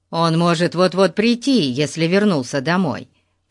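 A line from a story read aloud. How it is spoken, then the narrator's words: Plain. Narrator (Russian): сказал Пип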